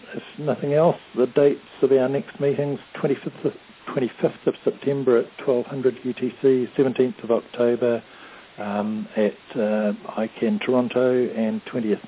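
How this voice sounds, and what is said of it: Strained, fading voice. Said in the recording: “I'm just losing my voice”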